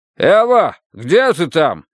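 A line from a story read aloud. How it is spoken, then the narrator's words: Shout. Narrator (Russian): крикнул он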